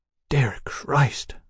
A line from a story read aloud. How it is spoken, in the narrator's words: Mallory muttered